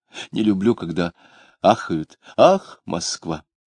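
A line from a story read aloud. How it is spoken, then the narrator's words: Sighing. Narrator (Russian): Он снова вздохнул, говоря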